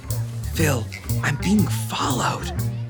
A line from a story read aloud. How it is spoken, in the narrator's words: Shelly leaned very close and whispered